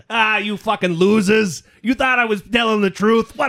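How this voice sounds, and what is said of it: Imitates another person's voice, New Jersey-ish. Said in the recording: “Donald Trump ... Donald Trump is sort of New Jersey a little bit ... I don't have the nuance to my accents.”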